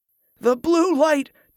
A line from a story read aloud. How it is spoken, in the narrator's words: groaned, gesturing feebly